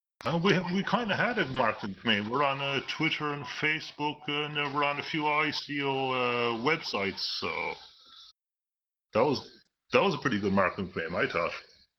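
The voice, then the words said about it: UK-ish accent. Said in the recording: “Some type of UK-ish accent.”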